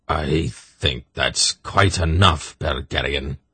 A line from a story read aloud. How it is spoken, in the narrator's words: Zakath snapped